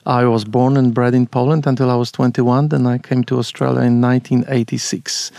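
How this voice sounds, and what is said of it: Clear Polish accent in English. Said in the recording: “I still have an accent... It's quite clear. I have no trouble making you out.”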